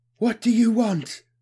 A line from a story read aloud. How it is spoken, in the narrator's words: the three voices gasped